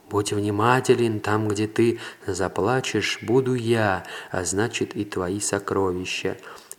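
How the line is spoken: Heart's whisper. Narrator (Russian): сердце прошептало ему

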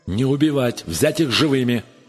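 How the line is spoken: Shout. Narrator (Russian): закричал Атли

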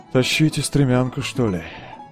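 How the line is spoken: Glum. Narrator (Russian): уныло сказал Ганс Шмульке

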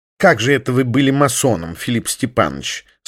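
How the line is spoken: Plain. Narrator (Russian): спросил его Пегасов

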